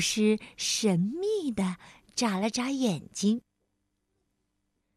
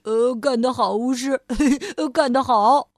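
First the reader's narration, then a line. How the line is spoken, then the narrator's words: Laughing while speaking. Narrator (Chinese): 懒惰先生觉得很好笑，他边笑边说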